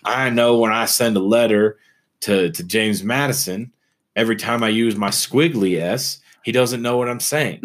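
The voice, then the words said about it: Put-on Southern Louisiana accent. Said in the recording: “That's an interesting accent to give to Ben Franklin. ... Like, he was born in southern Louisiana.”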